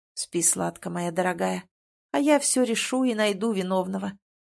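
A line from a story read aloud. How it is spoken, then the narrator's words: Whisper. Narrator (Russian): слышу его шепот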